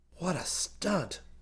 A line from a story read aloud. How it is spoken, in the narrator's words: muttered ruefully to himself